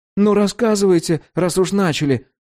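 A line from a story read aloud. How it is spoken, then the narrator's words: Pleading. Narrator (Russian): взмолился Егор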